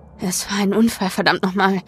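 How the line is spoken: Muttering to self. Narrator (German): murmelte Kit vor sich hin

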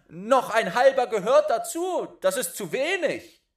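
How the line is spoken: Calling out. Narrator (German): rief er

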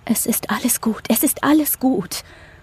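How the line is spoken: Murmured. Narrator (German): murmelt sie

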